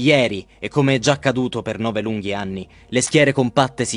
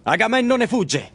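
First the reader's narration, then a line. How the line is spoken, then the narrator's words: Shouted. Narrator (Italian): grida allora Ettore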